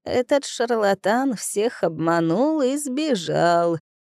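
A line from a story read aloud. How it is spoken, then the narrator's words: Creaky spirit voice. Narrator (Russian): проскрипел дух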